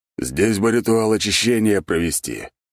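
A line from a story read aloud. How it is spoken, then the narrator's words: Grumbling to no one. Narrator (Russian): будто бы никому конкретно не обращаясь, проворчал Бернхард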